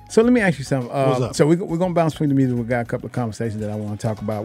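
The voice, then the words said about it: Southern US country accent. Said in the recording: “I got this country accent ... I am country”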